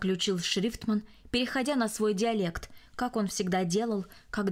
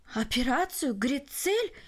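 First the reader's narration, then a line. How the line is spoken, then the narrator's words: Exclamation. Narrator (Russian): воскликнул Барелл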